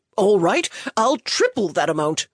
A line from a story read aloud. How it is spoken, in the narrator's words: Sputtering at this affront, he shouted